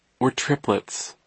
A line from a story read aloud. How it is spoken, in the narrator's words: Isidore said sadly